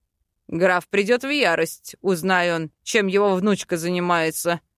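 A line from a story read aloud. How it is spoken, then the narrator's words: Short laugh. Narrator (Russian): хохотнул Фариэль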